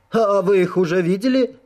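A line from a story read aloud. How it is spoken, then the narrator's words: Excited exclamation. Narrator (Russian): с волнением воскликнул король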